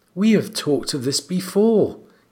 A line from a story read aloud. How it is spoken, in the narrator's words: he said gently